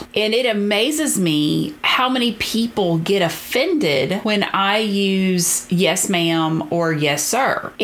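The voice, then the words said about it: Southern US accent. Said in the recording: “If you can't tell from my accent, I grew up in the very deep South”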